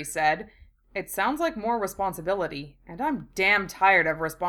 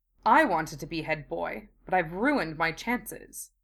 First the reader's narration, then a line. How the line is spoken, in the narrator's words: Draco said bitterly